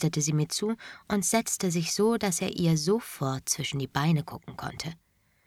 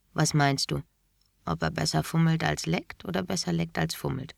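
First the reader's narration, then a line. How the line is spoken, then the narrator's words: Quiet question. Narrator (German): fragte Wendy mich leise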